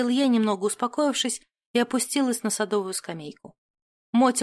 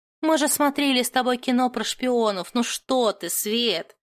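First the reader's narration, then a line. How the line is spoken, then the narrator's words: Snorting. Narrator (Russian): фыркнула Матильда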